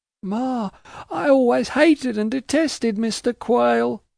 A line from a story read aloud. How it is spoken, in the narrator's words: sobbed Caddy